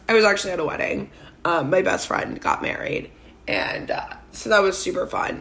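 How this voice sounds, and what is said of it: Hoarse, partly lost voice. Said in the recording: “I have lost my voice again. It's a little better”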